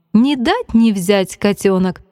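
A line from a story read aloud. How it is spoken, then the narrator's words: Grandmother laughing. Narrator (Russian): смеялась бабушка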